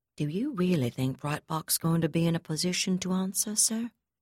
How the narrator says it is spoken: the Chief of Staff asked softly

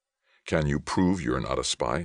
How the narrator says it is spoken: asked, feeling new sweat break out on his forehead

